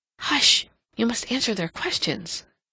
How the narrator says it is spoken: Catherine whispered, desiring at all costs to keep him quiet

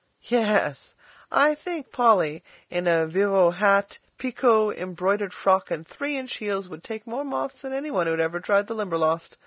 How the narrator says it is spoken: laughed Philip

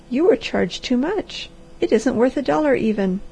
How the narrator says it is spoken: she cried in swift panic

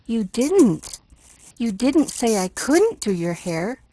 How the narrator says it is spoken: crowed triumphantly

